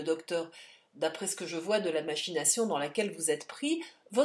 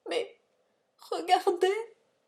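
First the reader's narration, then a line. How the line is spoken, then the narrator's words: Sobbing. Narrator (French): sanglota Silas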